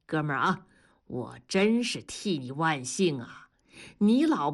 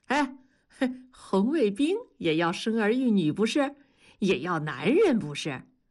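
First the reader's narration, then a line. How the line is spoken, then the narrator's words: Chuckling. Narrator (Chinese): 大庄嘿嘿的笑着说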